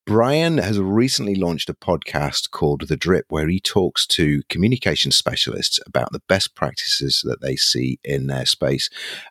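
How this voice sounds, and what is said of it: Northern British accent. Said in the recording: “a dignified gentleman with a British accent ... a coarse northern accent that I've got”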